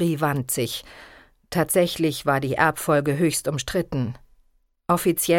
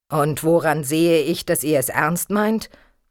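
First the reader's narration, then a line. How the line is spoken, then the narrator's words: Stern king asking. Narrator (German): fragte der König nun streng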